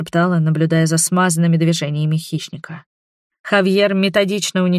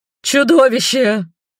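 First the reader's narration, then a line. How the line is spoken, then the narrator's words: Feral man's frightened cry. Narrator (Russian): выкрикнул один из одичавших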